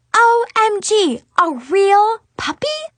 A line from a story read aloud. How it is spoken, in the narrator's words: I exclaimed